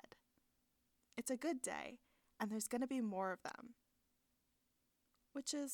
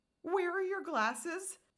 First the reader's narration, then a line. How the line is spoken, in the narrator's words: Jeremy blurts